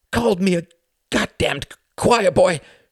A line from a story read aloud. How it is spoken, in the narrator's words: he snarled